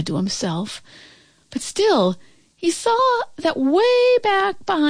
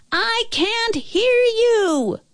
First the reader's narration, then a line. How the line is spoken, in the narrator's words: the little girl shouted even louder